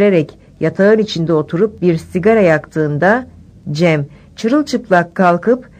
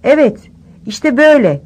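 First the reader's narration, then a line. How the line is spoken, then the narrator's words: Shouting. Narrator (Turkish): diye bağırırken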